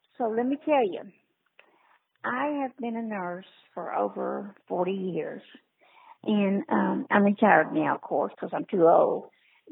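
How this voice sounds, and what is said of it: Voice sounds off, strained. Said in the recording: “apologize for my voice.”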